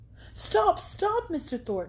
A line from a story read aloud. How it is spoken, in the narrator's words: she impatiently cried